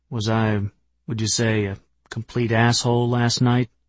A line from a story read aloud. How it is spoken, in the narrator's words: just said in a quiet voice